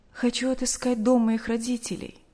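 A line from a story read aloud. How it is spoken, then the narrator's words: Deep sigh. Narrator (Russian): глубоко вздохнув, сказала Наташа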